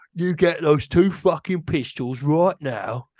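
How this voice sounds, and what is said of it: British tough-guy gangster accent. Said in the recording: “the British accent of like the thug guys from like a Guy Ritchie movie ... It's the most fun accent to do”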